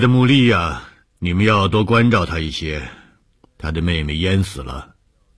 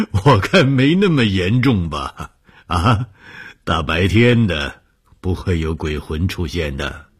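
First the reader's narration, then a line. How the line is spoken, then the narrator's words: Laughing reassurance. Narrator (Chinese): 红鱼笑了说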